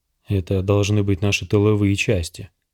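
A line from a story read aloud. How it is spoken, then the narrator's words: Soldier muttering. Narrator (Russian): пробормотал один из солдат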